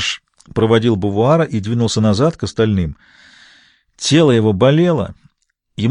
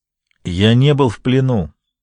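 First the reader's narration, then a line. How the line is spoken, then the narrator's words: Plain. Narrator (Russian): ответил Финни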